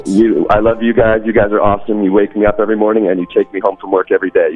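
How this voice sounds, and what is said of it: Mixed South African-American accent. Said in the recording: “I've picked up on your accent ... born in the States, but to a complete South African family ... just with a silly accent ... I think it's beautiful”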